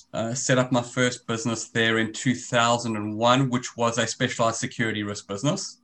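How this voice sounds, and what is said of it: South African accent. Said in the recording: “As you can hear from my accent, I'm originally South African.”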